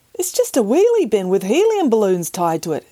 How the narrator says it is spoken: exclaimed

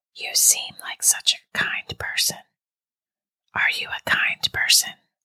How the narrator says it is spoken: the whisper asked

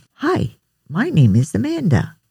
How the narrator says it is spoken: said cheerfully

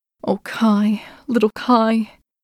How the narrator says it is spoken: Gerda sighed

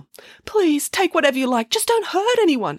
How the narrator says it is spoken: he pleaded

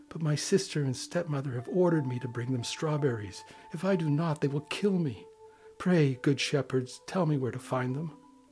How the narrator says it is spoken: said the girl sadly

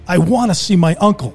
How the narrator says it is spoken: shouted

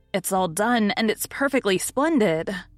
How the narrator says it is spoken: cried Nan, with an air of triumph

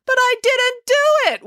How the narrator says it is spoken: wailed April

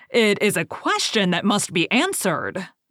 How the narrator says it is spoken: the king cried triumphantly

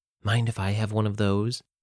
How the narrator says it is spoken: Virginia asked in a shaky voice

